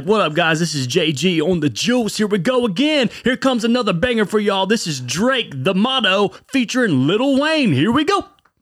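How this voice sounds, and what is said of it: Hyped radio DJ voice. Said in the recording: “I don't even have a radio voice ... A little monk in there, dude ... I would hear it on the radio and I'd be like, yep, that's it.”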